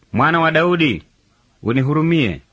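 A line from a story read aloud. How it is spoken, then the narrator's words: Raising voice louder. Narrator (Swahili): Lakini yeye akazidi kupaza sauti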